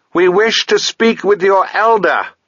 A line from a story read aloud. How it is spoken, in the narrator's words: shouted Sabriel